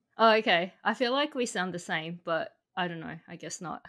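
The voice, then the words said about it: Australian accent. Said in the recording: “you kind of have an accent. Where is that accent from? ... My accent is from Australia. ... It's very different from mine”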